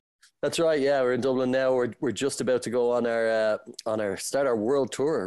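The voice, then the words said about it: Irish accent. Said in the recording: “we can tell from the accent in Ireland”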